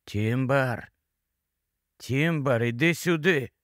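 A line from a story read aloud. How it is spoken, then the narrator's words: Quiet. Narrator (Ukrainian): Він тихо промовив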